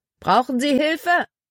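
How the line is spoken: Calling out. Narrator (German): Er rief einem Rothemd zu

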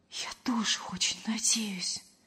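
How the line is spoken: Whisper. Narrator (Russian): почему-то шепотом откликнулась Лена

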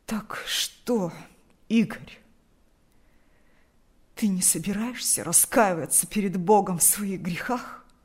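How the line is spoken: Hoarse, agitated father. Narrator (Russian): От волнения голос отца хрипел

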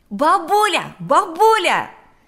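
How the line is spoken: Shouting from doorway. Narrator (Russian): закричал он с порога

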